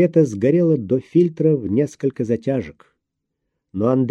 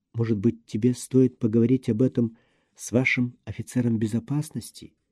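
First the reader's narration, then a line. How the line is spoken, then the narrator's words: Barely audible question. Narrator (Russian): еле слышно спросила Лена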